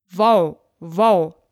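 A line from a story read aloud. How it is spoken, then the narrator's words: Dog barking. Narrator (German): bellte der Hund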